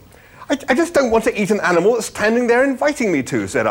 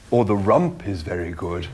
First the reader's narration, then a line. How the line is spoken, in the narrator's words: murmured the animal